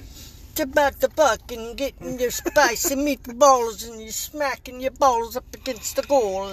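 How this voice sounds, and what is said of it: Exaggerated cartoon Italian accent. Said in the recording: “I turn into Luigi every time I try to do that accent”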